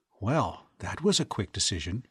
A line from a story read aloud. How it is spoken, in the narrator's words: she whispered